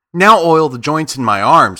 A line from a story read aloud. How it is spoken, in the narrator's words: said